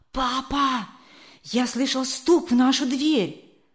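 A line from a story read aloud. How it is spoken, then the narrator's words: Child's whisper. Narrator (Russian): прошептал малыш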